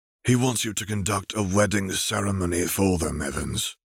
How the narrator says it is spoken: Arcturus sighed

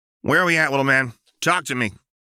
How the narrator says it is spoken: Jinx barked

